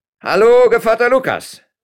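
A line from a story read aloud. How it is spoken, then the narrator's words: Called out. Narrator (German): rief Herr Lopez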